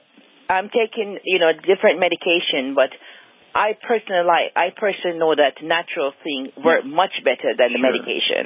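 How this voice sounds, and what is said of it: Slight Jamaican accent. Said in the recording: “you have a little bit of a Jamaica accent there”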